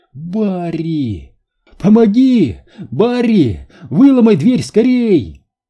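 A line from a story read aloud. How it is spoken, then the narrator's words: High trembling scream. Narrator (Russian): прокричала Джилл высоким, дрожащим голосом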